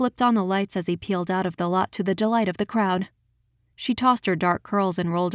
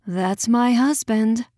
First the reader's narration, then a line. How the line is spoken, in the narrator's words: she sighed